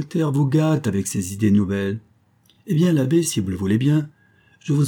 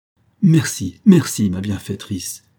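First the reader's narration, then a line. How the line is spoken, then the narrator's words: Overjoyed exclamation. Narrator (French): s'écria fou de joie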